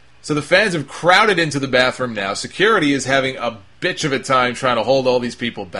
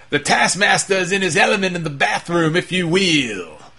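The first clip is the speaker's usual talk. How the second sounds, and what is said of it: Poor imitation of another person's voice. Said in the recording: “I do a poor Dusty Rhodes impression.”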